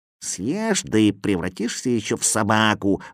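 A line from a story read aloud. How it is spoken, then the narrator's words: Grumbling. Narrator (Russian): ворчал Кузя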